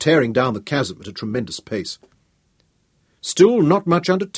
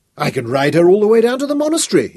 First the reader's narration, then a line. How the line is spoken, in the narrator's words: exclaimed delightedly